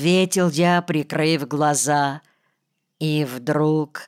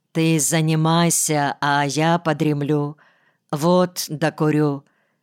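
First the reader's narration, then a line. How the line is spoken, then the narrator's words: Calm voice. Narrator (Russian): сказал я спокойным голосом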